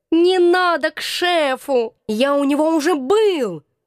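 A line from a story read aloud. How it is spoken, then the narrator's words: Hoarse drawling cat. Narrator (Russian): осипшим голосом протянул кот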